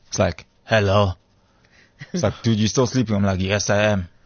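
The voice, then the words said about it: Groggy just-woke-up accent. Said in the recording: “Wow, your accent. ... when you wake up. ... That's my morning accent.”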